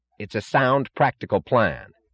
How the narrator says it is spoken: snapped James Taggart unexpectedly, with an angry edge of sudden animation in his voice

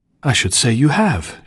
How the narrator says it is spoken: she exclaimed

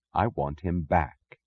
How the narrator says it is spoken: she said softly

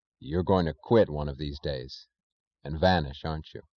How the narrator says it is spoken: he asked quietly

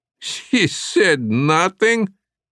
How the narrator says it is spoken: Janacek laughed

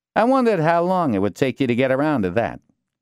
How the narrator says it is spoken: Deschamps said

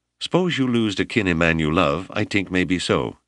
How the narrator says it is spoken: said

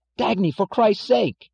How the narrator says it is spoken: cried James Taggart in panic

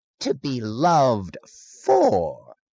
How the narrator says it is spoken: he said, his voice grating with mockery and righteousness

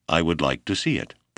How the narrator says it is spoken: the doctor replied

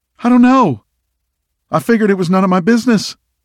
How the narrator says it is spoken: Landry squeaked

